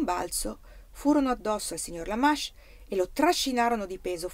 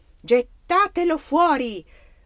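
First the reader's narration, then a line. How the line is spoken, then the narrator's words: King shouting. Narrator (Italian): gridò il re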